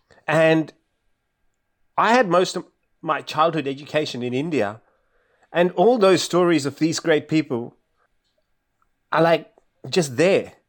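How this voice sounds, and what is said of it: Australian accent. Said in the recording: “I walk around with this Australian accent”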